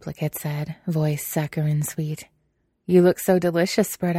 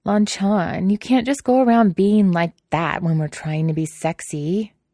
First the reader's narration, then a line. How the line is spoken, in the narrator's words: Wei Wuxian whined